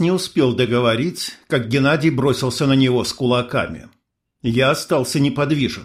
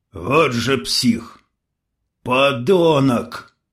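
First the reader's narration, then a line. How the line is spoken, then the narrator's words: Growled reply. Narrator (Russian): в ответ прорычал Геннадий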